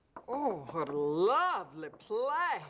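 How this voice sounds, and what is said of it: Put-on accent. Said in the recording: “That's the accent she uses when we play 12 Years a Sex Slave.”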